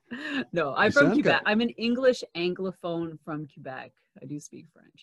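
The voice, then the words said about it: American-sounding English accent. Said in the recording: “you don't sound particularly Canadian... You sound American”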